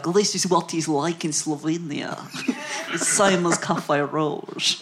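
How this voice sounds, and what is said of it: Imitated Slovenian accent. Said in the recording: “But in a Slovenian accent.”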